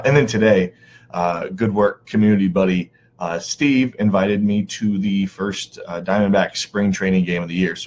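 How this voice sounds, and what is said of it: Hoarse, strained voice. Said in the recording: “my voice is shot ... I attempted to yell at the umpires. It didn't go well.”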